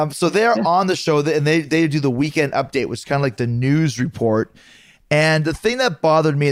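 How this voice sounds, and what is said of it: Usual voice. Nothing is said of it.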